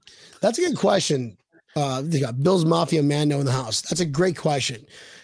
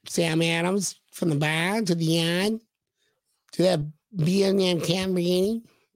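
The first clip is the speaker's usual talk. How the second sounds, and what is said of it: Unconvincing put-on Boston accent. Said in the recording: “That's my Boston accent. ... I'm not quite sure what kind of accent that was, but good job.”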